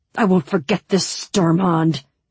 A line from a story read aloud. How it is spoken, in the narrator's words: Ivan spat